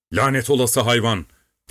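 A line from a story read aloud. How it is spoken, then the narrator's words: Shouting. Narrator (Turkish): diye bağırdı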